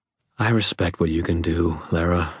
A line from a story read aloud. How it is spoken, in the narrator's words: I said quietly